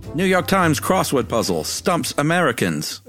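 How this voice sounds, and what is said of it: Put-on Mid-Atlantic accent. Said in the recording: “Mid-Atlantic accent is what they call that.”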